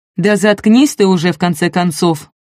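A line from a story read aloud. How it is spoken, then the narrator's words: Shouting. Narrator (Russian): крикнул кто-то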